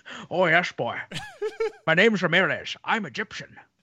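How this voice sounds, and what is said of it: Sean Connery Scottish accent impression. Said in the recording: “Mendoza is the Sean Connery of them. ... Comes in with a Scottish accent, claims he's Egyptian.”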